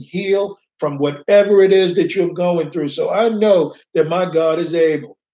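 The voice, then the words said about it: Raised, loud preaching voice. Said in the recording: “raise my voice”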